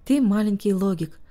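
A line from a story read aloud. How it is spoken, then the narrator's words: Plain. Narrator (Russian): сказал Харти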